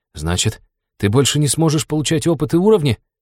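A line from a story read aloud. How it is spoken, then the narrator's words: Incredulous breath. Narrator (Russian): неверяще выдохнул друг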